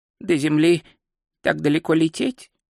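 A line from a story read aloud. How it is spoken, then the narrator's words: Muttered. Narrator (Russian): пробормотал Ринсвинд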